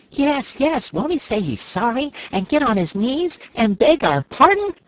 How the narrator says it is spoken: cried Scraps, to show her scorn of the suggestion

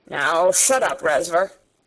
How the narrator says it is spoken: said Sarah roughly

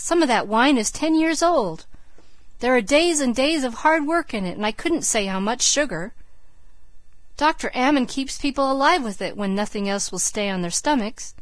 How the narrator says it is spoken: cried Margaret aghast

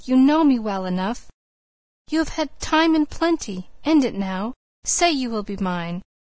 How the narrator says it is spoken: he pleaded

